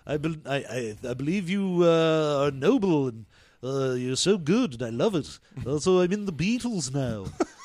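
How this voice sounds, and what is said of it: Put-on Liverpool accent. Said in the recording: “My accent has just gotten more and more Liverpool as it goes on.”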